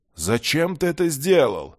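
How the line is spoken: Indignant groan. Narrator (Russian): аж застонал от такой подлости горец

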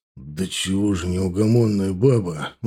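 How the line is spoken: Weary. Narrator (Russian): устало проговорил Загид

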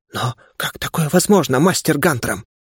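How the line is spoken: Stunned whisper, arrogance gone. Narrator (Russian): ошарашенно прошептал виконт, враз растерявший свою спесь

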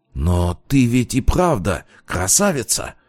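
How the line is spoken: Exclaiming. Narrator (Russian): воскликнул Полиньяк

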